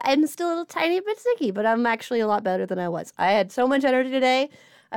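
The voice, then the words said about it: Crackly, slightly sick voice. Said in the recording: “excuse my voice as it still crackles a little bit ... I'm coughing a little bit”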